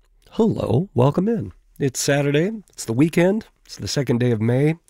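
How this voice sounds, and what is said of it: Congested, sinus-affected voice. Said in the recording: “apologize for the voice. It's my annual springtime sinus sensation ... I feel better than I sound”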